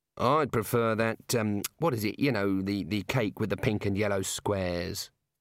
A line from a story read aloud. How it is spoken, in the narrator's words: muttered the senior wrangler